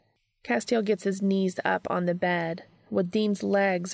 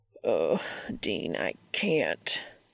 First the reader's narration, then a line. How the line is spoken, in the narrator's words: he growls